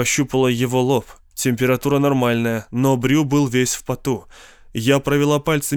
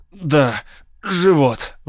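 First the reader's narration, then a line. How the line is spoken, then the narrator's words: Forced out. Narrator (Russian): выдавил он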